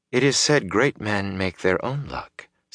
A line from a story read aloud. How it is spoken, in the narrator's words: Celine said softly